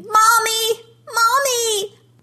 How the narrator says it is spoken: his screams

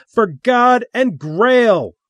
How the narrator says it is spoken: Little Elvis shouted

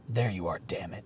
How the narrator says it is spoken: he growled at Jackson

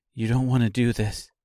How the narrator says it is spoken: she said calmly

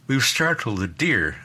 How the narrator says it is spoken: I said

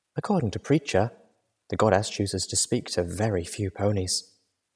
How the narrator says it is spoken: whispering

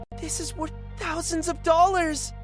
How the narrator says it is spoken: one of them exclaimed

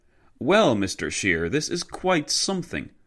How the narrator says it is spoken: generous Dinglebush exclaimed to the Alsatian delegate

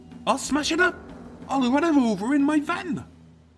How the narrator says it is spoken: the hot-tempered Tim, as he threatened her, squealing

